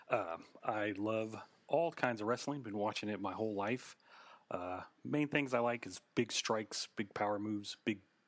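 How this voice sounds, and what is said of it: Oklahoma accent. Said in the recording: “I am from Oklahoma. You can probably hear it in my voice when I say Oklahoma.”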